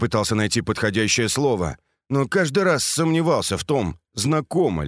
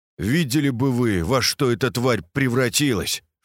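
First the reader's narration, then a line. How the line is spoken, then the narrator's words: Snorted. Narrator (Russian): фыркнул я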